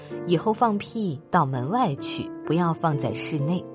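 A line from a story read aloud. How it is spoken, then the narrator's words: Soft, serious, gentle. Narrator (Chinese): 李先生又用很轻而严肃的声音和气地说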